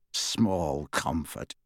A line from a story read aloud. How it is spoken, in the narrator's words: snarled Kingsley